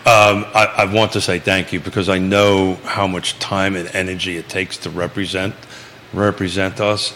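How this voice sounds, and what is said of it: Speaks with an unusual accent. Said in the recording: “with a funny accent.”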